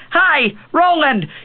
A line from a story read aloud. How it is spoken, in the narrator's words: Cuthbert screamed deliriously